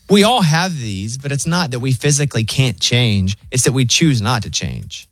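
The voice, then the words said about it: Thick Southern US accent. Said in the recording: “My accent's so thick. ... it's still a Southern accent.”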